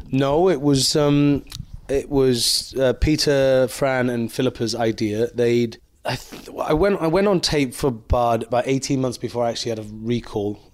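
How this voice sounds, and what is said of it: Welsh accent. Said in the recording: “the first Welsh one ... they'd heard my accent on interviews I'd done”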